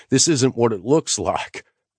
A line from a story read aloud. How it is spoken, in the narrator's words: he sputtered